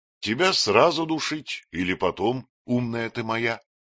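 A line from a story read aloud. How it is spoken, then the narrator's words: Affectionate question. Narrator (Russian): спросил Матвей ласково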